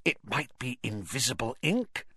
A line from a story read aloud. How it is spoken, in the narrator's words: she whispered